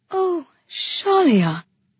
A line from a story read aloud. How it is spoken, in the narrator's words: she breathed